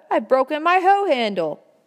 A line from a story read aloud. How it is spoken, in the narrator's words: Hugh called out